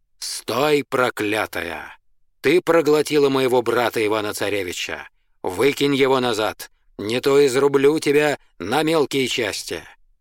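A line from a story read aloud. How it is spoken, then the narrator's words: Booming shout. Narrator (Russian): Иван, солдатский сын, крикнул зычным голосом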